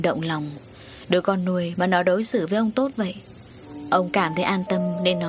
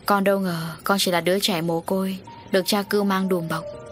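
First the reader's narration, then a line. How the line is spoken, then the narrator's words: Sighing. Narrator (Vietnamese): Tâm thở dài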